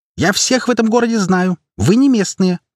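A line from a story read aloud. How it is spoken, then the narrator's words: Shrill shriek. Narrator (Russian): провизжала она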